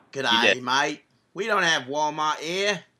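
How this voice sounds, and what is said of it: Bad put-on Australian accent. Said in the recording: “That's a terrible accent. ... You just offended like every two listeners from Australia”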